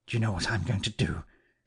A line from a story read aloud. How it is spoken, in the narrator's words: he said in a low voice, putting his lips close to my ear